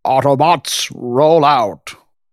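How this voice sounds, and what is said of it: Optimus Prime character voice. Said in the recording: “Transformers voice. Like, I just did like Optimus.”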